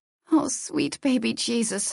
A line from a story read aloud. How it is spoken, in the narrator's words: I murmured under my breath